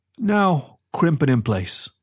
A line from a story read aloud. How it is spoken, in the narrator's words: said Reg, just as calmly